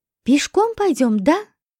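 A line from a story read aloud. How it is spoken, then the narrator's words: Joyful. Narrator (Russian): радостно спросила Лика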